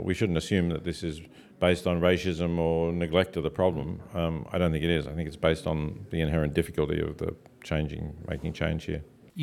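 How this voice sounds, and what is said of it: Australian accent. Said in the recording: “There's still a very good Australian accent there.”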